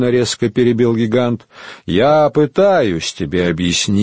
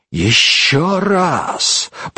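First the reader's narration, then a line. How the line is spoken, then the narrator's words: Furious hiss. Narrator (Russian): прошипел он яростно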